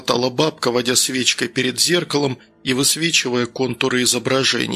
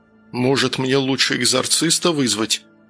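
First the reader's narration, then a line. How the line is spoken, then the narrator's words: Glum dejected speech. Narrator (Russian): уныло проговорил Данил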